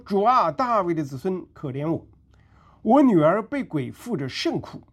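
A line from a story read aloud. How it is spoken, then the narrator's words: Woman crying out. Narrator (Chinese): 有一个迦南妇人 喊着说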